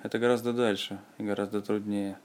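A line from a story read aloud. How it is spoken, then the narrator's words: Sad. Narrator (Russian): прибавил печально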